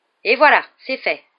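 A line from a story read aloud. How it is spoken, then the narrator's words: Triumphant exclamation. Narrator (French): s'exclama Fred d'un ton triomphant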